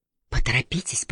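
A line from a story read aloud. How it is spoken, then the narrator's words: Whispering. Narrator (Russian): прошептала она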